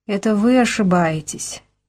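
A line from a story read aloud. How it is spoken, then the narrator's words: Soft catlike. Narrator (Russian): мягко по-кошачьи сказала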